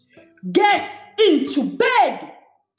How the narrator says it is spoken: Gabe thundered

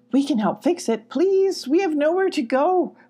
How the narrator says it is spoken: pleaded Rufus

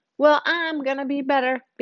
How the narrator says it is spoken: Bianca shouts over all the gibberish

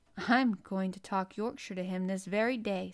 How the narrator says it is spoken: said Mary, chuckling to herself

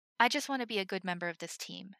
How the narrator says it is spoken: Himmel said

